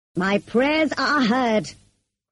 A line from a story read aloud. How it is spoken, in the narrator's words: cried St